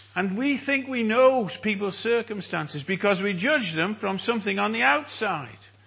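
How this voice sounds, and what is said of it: North Welsh accent. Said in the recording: “Even by their accent. I know. I'm a Welshman. From North Wales. And people in South Wales think I'm from England.”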